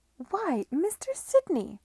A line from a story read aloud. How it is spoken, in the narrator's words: she cried, evidently surprised